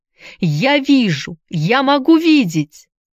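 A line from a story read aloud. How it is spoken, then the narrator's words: Shouting at full voice. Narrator (Russian): закричала во весь голос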